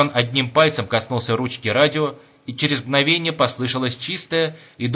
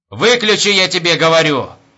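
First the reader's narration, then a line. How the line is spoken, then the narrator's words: Shout. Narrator (Russian): крикнул майор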